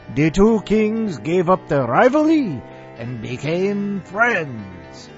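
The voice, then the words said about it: Bad mixed-up foreign accent. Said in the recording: “Told you the accent would suck... Swedish, Irish, Spanish, Russian. What the fuck?”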